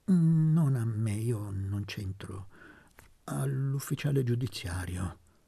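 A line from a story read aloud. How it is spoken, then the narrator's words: Stammered. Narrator (Italian): balbettare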